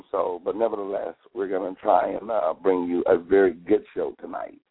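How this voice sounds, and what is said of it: Strained, impaired voice. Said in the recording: “my voice is a little out of whack this evening... It just started getting progressively worse this evening”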